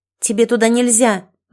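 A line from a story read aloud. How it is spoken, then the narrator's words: Angry declaration. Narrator (Russian): злобно заявила Банги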